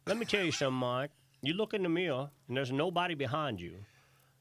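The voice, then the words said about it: Put-on Virginia drawl. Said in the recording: “what's that Virginia draw? I can't really say it good. ... That's a pretty good Virginia accent.”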